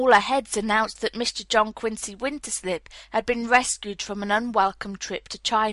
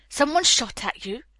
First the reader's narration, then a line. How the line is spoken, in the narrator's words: gasped Miss Minerva